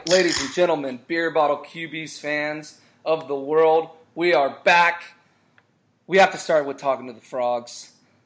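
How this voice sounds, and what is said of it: Hoarse, strained voice. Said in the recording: “cheering so damn hard that I lost my voice”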